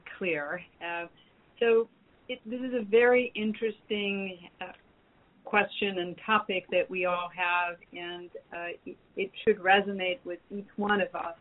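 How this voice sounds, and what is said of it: Voice with a slight cold. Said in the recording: “I have a little cold”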